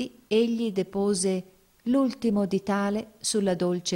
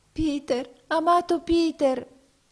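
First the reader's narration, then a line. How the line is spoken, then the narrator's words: Tearful exclamation. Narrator (Italian): esclamò essa in pianto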